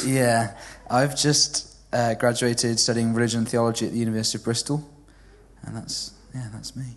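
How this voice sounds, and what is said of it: Well-spoken southern English accent. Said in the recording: “I don't sound very Welsh because my mum's originally from, just outside Watford ... When I sound English, I sound like a very well-spoken Watford person”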